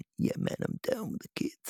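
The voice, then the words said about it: Put-on 'cool' youthful voice. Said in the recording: “doing that voice ... this is what old people do when we try and sound cool ... we put on a voice”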